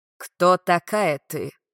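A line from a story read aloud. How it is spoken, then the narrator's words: Low male voice, eastern accent. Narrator (Russian): Голос у мужчины был низким, явно с восточным акцентом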